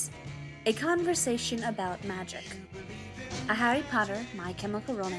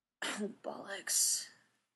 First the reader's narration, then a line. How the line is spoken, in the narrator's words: Harry muttered